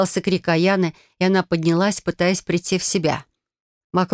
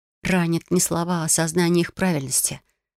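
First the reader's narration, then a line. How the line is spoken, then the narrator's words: Quiet retort. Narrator (Russian): парировала я тихо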